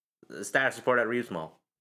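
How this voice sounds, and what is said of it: Put-on character voice. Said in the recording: “in my best Damon Utilities voice”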